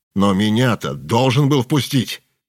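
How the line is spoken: Angry. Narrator (Russian): зло сказал Петров

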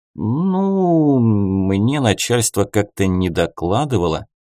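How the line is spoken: Guilty smiling drawl. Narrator (Russian): с немного виноватой улыбкой протянул безопасник

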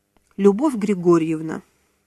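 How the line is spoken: Soft gentle voice. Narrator (Russian): мягко произнес Тодоров

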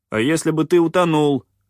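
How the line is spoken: Barking. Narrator (Russian): рявкнул попрыгун

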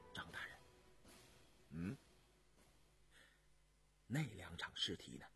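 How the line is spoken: Soft, suppressed anger. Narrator (Chinese): 杨明石强忍着心头的激愤，轻声说道

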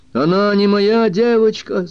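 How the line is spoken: Inner shout. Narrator (Russian): закричал Бобби на мать внутри себя

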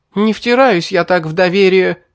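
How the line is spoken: Girl shouting. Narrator (Russian): выкрикнула девушка

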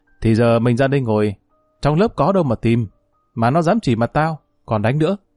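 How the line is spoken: Laughing loudly. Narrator (Vietnamese): Thằng này mới cười lớn

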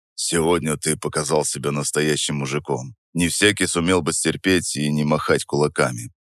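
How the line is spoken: Quiet, confidential. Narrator (Russian): сказал он негромко, чтобы не слышали остальные

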